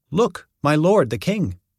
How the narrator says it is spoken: Gehazi exclaimed

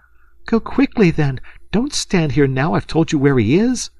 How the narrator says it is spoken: cried the girl, coloring to the eyes

